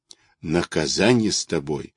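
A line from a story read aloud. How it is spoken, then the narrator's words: Grumbling. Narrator (Russian): ворчала Алишка, оступаясь о кочки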